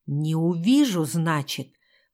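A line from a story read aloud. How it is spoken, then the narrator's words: Menacing hiss in ear. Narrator (Russian): прошипела ей на ухо, сдавив ее горло еще сильнее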